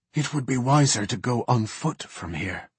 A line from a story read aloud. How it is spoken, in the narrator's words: Zanon whispered